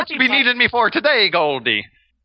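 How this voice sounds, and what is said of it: Bad put-on Irish accent. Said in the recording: “Which is the best Irish accent... the fact that it's so bad is perfect for this game... You think I could do an Irish accent?”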